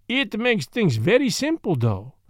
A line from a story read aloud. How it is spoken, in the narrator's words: said Poirot, in a cheerful voice